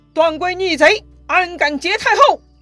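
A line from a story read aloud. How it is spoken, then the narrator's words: Loud stern shout. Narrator (Chinese): 卢植远远 大声喝道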